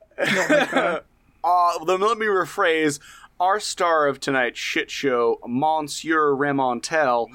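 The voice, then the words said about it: Exaggerated Southern American accent. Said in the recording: “pronouncing French names ... I demand that they be done in the most Southern American accent.”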